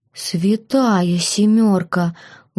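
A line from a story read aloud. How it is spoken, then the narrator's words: Breathless exhale. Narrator (Russian): выдохнул кто-то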